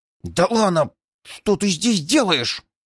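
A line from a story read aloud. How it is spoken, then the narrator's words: Fearful hiss. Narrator (Russian): зашипел старик на свою родственницу, боясь даже бросить взгляд на правителя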